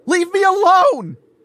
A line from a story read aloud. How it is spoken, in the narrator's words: I yelled over my shoulder